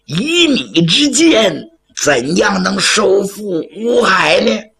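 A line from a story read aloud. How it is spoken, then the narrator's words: Cheerful hopeful question. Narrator (Chinese): 罗红瑶可抓着救命的稻草了，笑呵呵问花桥将军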